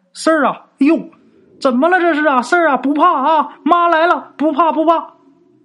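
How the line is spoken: Mother calling out. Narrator (Chinese): 听他妈在屋里喊啊

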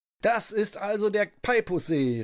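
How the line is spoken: Calling out. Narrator (German): rief Vierkraftmann, der den Ort sogleich erkannte

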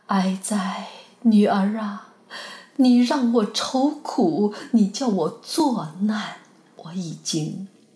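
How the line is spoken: Long grieving sigh. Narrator (Chinese): 长叹道

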